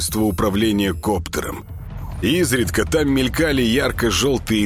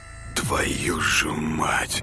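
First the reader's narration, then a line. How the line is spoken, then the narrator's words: Quiet remark. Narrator (Russian): Тихо обронил Артем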